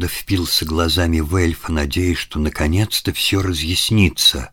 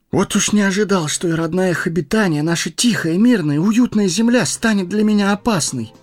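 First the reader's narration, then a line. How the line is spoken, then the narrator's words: Exclaiming. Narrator (Russian): воскликнул Фродо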